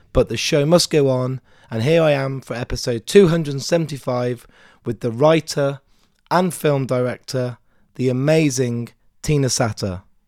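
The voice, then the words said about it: Hoarse, nearly lost voice. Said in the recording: “I do sound a bit different... by doing so many interviews, my voice is almost gone.”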